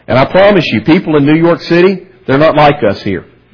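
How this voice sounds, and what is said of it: Southern American accent. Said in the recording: “my good old southern accent”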